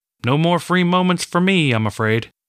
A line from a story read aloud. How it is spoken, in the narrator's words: shouted in response